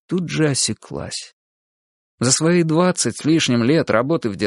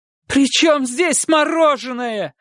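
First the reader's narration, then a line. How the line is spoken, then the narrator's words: Shouting, losing control. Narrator (Russian): закричала тогда, срываясь, Мария Семеновна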